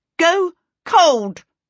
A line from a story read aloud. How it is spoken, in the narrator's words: she shouted into the steam